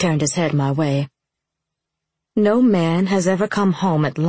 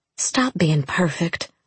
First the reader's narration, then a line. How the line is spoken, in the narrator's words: I whispered